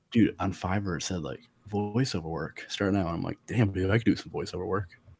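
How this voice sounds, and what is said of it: Hoarse, sore-throat voice. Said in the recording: “my strep throat, you know. ... That's like your sexy voice. ... Strep throat voice.”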